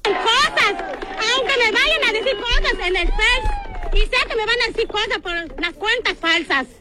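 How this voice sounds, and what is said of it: Yucatecan Mexican Spanish accent. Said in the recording (Spanish): “tienen un acento bastante peculiar ... Mira, escucha esto, así hablan los yucatecos.”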